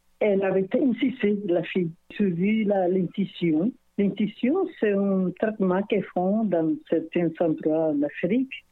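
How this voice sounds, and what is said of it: Speaks with a lasting accent. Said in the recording (French): “mon accent, là, parce que c'est un accent que je vais garder toute ma vie”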